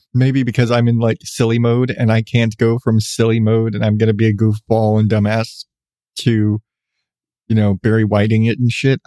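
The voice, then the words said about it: Deep, congested male voice. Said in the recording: “I have a deep voice by normal standards. I've always been told I have a deeper voice ... perpetually congested”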